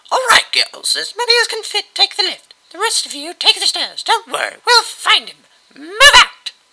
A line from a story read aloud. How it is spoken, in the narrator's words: The girls groaned, but the one holding me yelled back